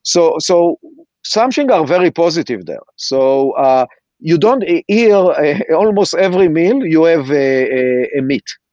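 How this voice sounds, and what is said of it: Israeli-accented English. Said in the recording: “I'm sure that you can hear from my accent that I'm Israeli.”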